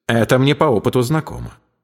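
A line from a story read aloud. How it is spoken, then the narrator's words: Calm objection. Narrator (Russian): спокойно возразил он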